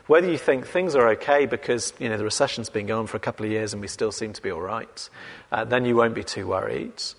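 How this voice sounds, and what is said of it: English accent. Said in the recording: “the world was ruled by people with my accent ... The idea of English people ruling the world”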